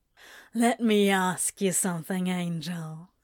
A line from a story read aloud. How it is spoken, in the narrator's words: said, his words a bit slurred